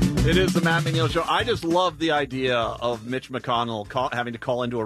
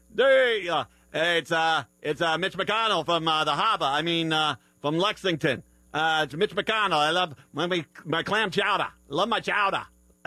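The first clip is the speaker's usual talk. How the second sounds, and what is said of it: Put-on Boston accent. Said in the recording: “the guy that calls in is, like, got a Boston accent.”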